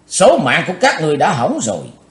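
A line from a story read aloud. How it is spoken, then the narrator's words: Shout. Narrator (Vietnamese): Cùng theo tiếng quát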